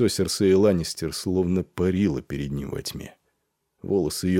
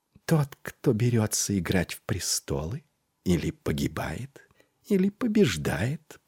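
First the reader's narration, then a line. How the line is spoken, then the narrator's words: Whispered. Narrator (Russian): прошептала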